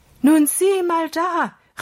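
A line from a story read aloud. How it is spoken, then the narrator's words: Called out. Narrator (German): rief er Holger zu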